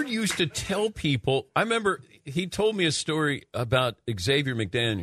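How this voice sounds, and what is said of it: Usual voice. Nothing is said of it.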